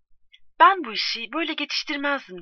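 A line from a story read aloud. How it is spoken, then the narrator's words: Plain. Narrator (Turkish): dedi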